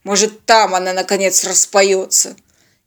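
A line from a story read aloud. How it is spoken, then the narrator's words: Irritated. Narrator (Russian): раздраженно уточнил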